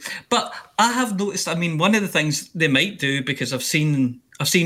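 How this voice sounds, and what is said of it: Usual voice. Nothing is said of it.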